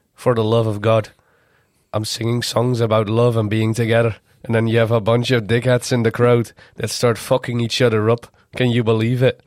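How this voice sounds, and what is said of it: Put-on Irish accent, leaning Scottish. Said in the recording (Dutch): “Ik ga nu proberen een Iers accent na te doen. Sorry voor alle Ieren. ... Vond meer Schots. ... het neigde naar Schots”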